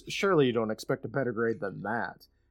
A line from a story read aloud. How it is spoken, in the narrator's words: Finley snaps